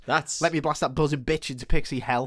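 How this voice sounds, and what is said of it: Fast line in Cockney accent. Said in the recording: “But he says it real fast... in a Cockney accent.”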